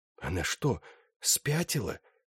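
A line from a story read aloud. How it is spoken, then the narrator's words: Whispered. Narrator (Russian): прошептал Флорин Сак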